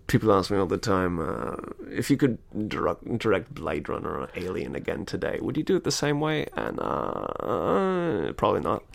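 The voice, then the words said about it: Tired, weary imitated voice. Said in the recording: “my impression of Ridley Scott is, he's always rubbing his eyes. He's very tired and he's completely over it.”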